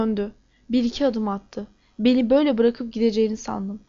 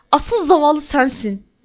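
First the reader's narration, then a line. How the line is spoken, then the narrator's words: Nearly shouted. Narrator (Turkish): diye bağırmak üzereydim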